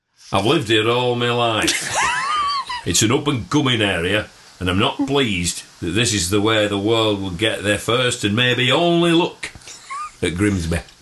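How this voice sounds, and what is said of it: Put-on Yorkshire accent. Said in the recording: “Who has a Grimsby accent? ... You could do a Yorkshire accent.”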